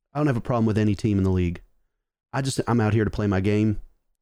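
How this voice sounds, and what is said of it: Slight put-on southern accent. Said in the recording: “he's got like a little bit of a southern accent”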